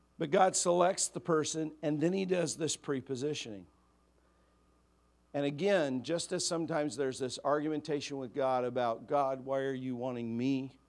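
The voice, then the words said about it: Slightly raspy voice. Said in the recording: “A little raspy,”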